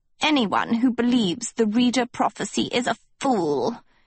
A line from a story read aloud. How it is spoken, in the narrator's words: hissed Lady Lesso